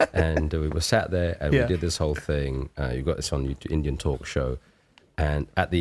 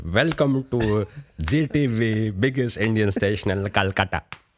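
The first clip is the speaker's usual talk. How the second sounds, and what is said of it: Put-on Indian accent character voice. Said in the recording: “I was in the character of this Indian toy”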